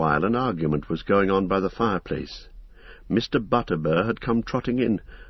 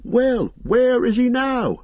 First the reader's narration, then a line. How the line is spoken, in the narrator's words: cried several voices